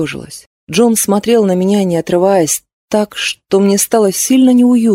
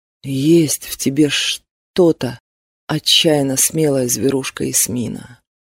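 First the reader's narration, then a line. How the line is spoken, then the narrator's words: Quiet. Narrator (Russian): наконец проговорил он тихо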